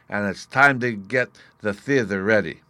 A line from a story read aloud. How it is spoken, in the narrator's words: Bruno said with a sigh